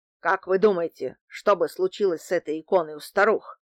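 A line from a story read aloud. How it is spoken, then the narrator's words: Angry question. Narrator (Russian): спросил он, зло сверкая глазами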